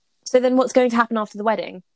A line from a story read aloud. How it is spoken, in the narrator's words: He snapped